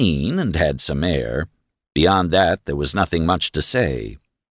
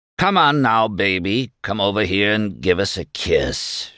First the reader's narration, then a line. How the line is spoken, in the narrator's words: Shad roared